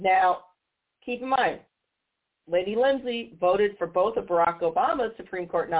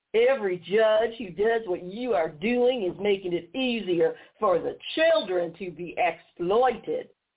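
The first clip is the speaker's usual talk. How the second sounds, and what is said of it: Imitates another person's voice. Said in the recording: “I'm going to use his stupid accent.”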